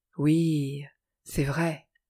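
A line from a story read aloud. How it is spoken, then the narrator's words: Pensive smiling murmur. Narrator (French): murmura alors Evald avec un sourire pensif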